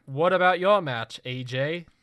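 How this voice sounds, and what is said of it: Failed attempt at British accent. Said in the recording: “That's not a British accent. I don't know what that was.”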